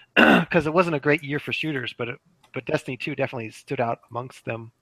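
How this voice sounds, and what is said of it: Hoarse, fading voice. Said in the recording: “I'm also losing my voice now.”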